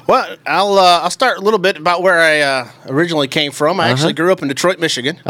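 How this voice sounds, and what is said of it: Regional accent not typical of Detroit. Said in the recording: “Which is surprising with this accent, I understand.”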